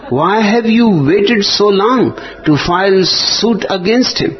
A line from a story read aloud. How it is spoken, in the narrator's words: The lawyer exclaimed